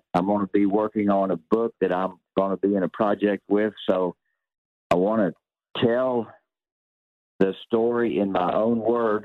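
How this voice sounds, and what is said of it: Southern American accent. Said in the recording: “the way I speak with my Southern accent.”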